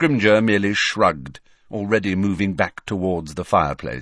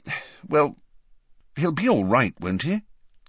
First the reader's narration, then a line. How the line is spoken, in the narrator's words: said the Prime Minister anxiously